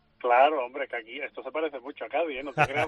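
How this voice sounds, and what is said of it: Cádiz Andalusian Spanish accent. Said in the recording (Spanish): “con tu acento, sabiendo que eres de gaditano hasta las trancas”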